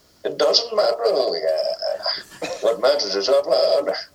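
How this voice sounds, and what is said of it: Impression of Bane's voice. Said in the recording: “Oh, do Bane! ... That was excellent. ... That was brilliant.”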